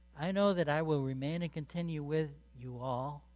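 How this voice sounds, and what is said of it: Southern American accent. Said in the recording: “There's that southern accent again.”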